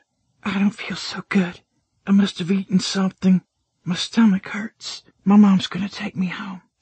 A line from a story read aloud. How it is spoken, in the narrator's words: she murmured just above a whisper